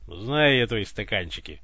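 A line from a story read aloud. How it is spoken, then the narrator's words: Wry snort. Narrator (Russian): хмыкнул Иван, узнавая собственное оправдание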